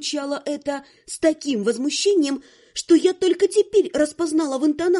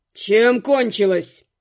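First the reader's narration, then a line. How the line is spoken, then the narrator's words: Growled. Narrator (Russian): рыкнул Дорс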